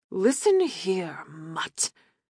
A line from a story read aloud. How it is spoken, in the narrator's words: Aaron rasped